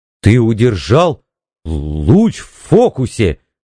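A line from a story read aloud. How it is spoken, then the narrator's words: Stammering. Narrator (Russian): заикаясь, сказал Пауэлл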